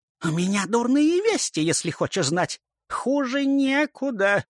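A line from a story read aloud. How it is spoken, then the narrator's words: Nasal voice. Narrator (Russian): прогнусавила крыса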